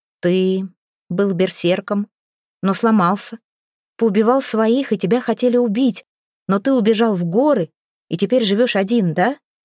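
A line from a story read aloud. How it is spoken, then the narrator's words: Plain. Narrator (Russian): спросила Хёрдис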